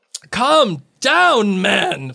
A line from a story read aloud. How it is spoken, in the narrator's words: Fudge barked